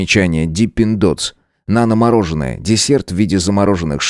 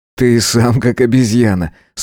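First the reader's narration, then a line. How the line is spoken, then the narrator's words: Laughing. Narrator (Russian): смеясь проговорил я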